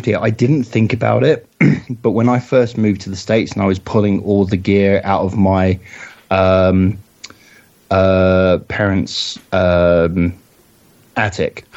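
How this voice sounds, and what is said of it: Non-American accent. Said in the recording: “I've still got this accent”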